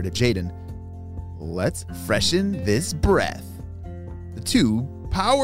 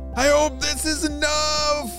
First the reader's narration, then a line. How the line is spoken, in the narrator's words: Jaden shouted to Ava